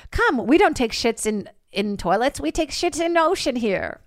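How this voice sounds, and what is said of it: Vague put-on Norwegian village accent. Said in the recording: “I don't know what the accent is. ... It's a weird Norway town.”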